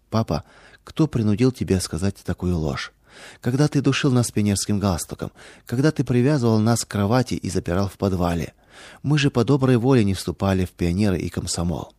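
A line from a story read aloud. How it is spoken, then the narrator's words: Sad question. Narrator (Russian): дочери печально спросили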